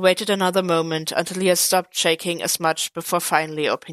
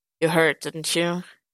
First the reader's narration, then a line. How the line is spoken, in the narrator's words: Clint muttered